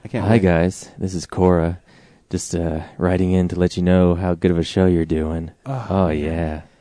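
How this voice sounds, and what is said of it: Slow, sexy reading voice. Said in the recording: “in your sexy voice ... in ... sexy voice ... slowly and sexily read”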